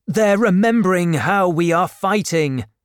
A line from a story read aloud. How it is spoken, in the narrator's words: shouted the doctor